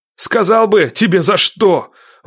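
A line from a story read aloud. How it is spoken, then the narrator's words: Angry shout. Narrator (Russian): выкрикнул зло Никита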